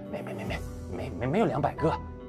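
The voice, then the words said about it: Quiet stammering mumble. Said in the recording (Chinese): “本来声如洪钟的他却小声的哼哼”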